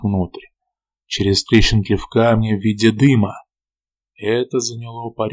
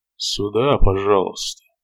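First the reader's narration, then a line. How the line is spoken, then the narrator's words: Mumbling. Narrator (Russian): пробормотал я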